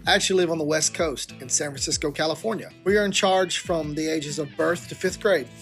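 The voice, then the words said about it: Southern American accent. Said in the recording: “don't let the southern accent fool you”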